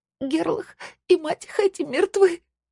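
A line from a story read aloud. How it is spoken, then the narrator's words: Sobbing. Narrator (Russian): разрыдалась она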